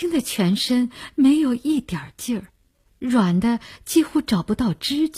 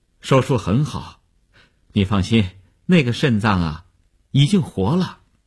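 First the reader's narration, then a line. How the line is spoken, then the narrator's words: Relieved, smiling. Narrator (Chinese): 医生放心地笑笑说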